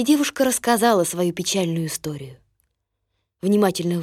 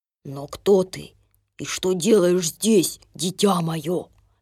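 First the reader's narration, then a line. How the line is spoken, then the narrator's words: Plain. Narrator (Russian): спросил Док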